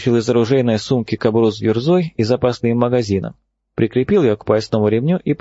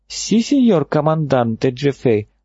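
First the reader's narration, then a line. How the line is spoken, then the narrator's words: Joyful reporting. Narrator (Russian): радостно отрапортовала она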